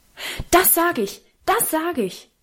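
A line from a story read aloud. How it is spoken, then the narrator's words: Very loud shouting. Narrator (German): rief Karl so laut, dass wir alle erschrocken zischten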